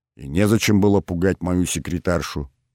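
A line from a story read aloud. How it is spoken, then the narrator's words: Calm. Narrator (Russian): уже спокойно произнес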